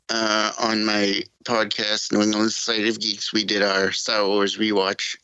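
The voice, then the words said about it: New England accent. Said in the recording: “New England accent there.”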